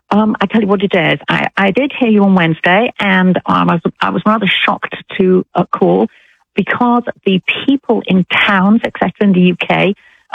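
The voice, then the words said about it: British English accent. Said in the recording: “you don't sound like you're from Alabama ... I'm British ... a British accent ... I love her accent ... I love an English accent”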